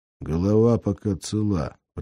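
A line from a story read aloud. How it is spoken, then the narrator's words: Muttering in English. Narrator (Russian): пробормотал Афанасий, заговорил по-английски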